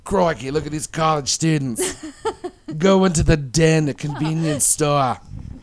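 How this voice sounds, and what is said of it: Steve Irwin impression with accent. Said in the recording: “I got to use an accent ... our own version of Steve Irwin ... I don't know if I can do the accent right now.”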